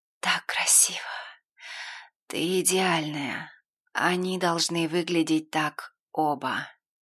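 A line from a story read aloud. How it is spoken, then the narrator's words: Broken moaning. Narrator (Russian): я прерывисто простонала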